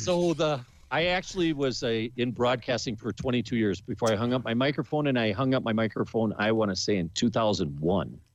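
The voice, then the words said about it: Good deep radio-style voice. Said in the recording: “You have a really good voice. You have a really good radio voice.”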